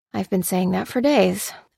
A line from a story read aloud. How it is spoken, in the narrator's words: muttered Lucy